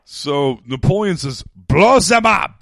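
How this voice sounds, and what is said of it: Put-on French accent. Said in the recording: “In French, though. I just did a French accent. ... Very good.”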